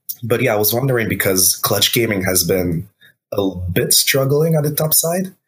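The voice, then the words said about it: Sick, slightly rough voice. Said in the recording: “I'm a bit sick right now, so my voice is a little bit screwed up.”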